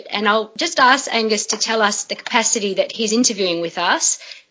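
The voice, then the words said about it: Melbourne Australian accent. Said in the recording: “I've got the Melbourne Australian accent”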